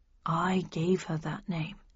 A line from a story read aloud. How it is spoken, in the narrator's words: he said quietly